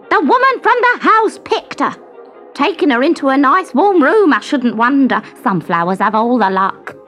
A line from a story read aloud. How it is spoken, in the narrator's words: A marigold, whose sleep he had disturbed, said crossly